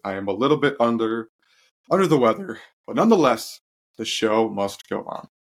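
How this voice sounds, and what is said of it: Slightly congested voice. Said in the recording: “I sound a little congested”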